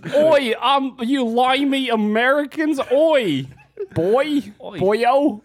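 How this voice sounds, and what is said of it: Bad mocking British-style accent. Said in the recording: “Yeah, it was bad. ... since you're making fun of my accent”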